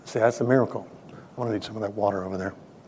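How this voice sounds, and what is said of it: Choked-up, emotional voice. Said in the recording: “I'm getting all choked up here.”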